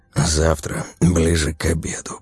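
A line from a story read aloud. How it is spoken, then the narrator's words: Whisper. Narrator (Russian): прошептал Вадим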